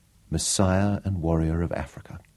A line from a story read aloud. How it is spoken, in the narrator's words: whispered aloud